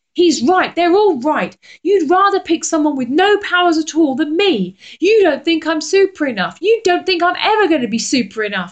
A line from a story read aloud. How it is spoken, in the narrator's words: said Jake angrily